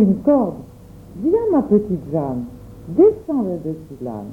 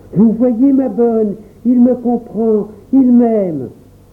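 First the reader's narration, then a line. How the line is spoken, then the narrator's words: Joyful exclamation. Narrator (French): s'écria Jacques rouge de joie, les yeux brillants de bonheur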